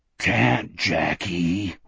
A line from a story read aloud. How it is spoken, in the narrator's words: Wolf spoke in a thunderous stage whisper